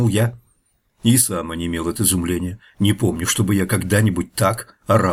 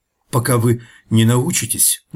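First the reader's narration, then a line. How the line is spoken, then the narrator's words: Faltering, embarrassed. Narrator (Russian): начал я, запинаясь и заливаясь краской,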